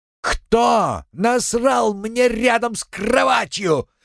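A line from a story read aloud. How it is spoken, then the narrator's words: Furious yelling. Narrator (Russian): бешено орал Вартак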